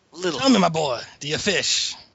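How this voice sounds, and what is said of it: Thick, hard-to-follow accent. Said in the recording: “Your accent is just a little...”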